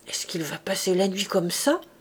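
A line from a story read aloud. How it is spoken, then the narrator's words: Grumbling. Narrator (French): grommelait la Thénardier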